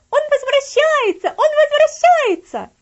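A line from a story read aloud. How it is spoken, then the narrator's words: Shouting. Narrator (Russian): она закричала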